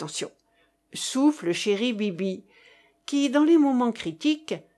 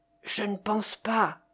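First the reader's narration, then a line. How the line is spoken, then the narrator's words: Low-voiced reply. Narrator (French): réplique à voix basse Pallas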